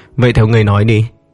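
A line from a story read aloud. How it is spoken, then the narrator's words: Cold thin smile. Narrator (Vietnamese): Hắn cười nhạt nói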